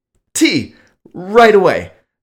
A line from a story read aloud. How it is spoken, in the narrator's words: I exclaimed